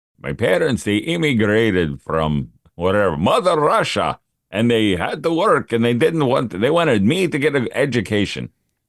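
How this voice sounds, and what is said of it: Put-on Russian accent. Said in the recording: “That's a great accent.”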